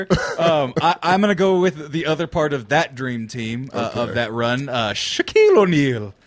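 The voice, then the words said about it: Put-on Irish accent. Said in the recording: “Why did you do that in an Irish accent?”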